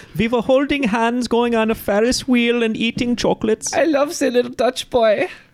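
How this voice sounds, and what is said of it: Poor put-on Dutch accent. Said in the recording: “How are you doing, little Dutch maid? ... My accent is even worse than Dutch boys. I don't know where I'm from.”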